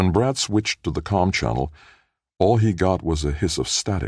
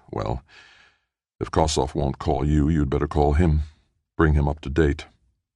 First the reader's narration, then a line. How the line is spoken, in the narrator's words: With an inner sigh, he told himself